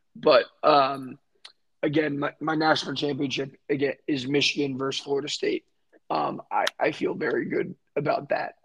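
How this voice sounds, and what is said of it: Hoarse, nearly lost voice. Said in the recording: “my voice is gone because I was hitting the war chant all night”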